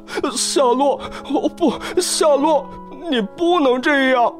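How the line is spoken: Anguished crying out. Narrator (Chinese): 威伯沉浸到巨大的痛苦和忧伤之中，哭叫起来

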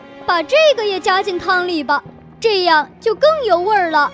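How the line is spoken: Loud shout. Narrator (Chinese): 加尼诺大声喊道

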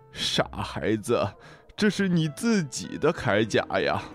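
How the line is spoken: Laughing. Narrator (Chinese): 海龟……然后笑着说

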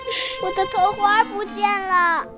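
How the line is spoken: Panicked crying. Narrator (Chinese): 玛丽妹妹慌张地哭了起来

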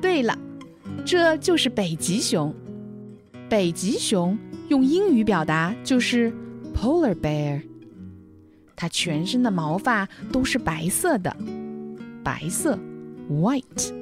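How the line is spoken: Smiling. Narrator (Chinese): 笑笑说

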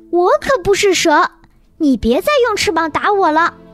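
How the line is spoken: Angry. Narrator (Chinese): 爱丽丝怒气冲冲地说道

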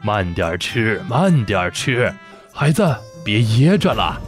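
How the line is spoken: Kind, smiling gentle voice. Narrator (Chinese): 范仲淹慈祥地看着彤彤，笑着对他说

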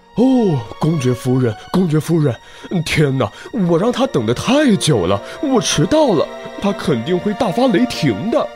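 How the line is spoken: Hurried muttering. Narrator (Chinese): 急匆匆地赶着路，嘴里还不停地嘟囔着

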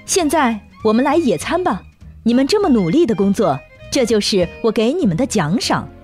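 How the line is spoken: Smiling. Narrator (Chinese): 仙女王后笑着说

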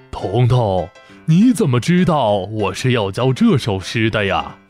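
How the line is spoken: Surprised smiling old man. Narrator (Chinese): 老先生惊讶地笑着说道

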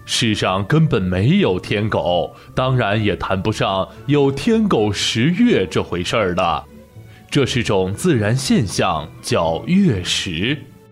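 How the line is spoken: Smiling. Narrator (Chinese): 河马老师听了，笑眯眯地说

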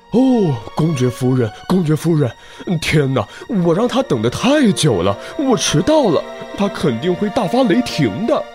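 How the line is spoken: Hurried muttering. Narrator (Chinese): 它依然急匆匆地赶着路，嘴里还不停地嘟囔着

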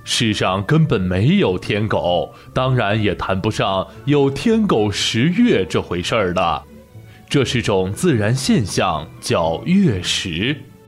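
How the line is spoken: Smiling, cheerful. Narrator (Chinese): 河马老师笑眯眯地说

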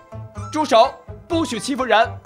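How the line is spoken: Small dog roaring. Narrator (Chinese): 小猎狗 大吼一声

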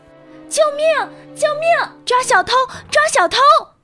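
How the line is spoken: Loud cry for help. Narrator (Chinese): 维吉尼亚大声呼喊

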